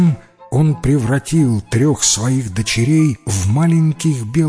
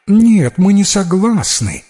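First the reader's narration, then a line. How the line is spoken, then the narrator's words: Two voices exclaiming. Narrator (Russian): воскликнули две старшие принцессы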